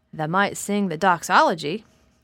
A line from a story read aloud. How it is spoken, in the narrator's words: suggested in his driest grunt